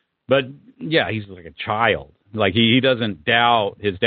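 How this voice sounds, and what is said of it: Usual voice. Nothing is said of it.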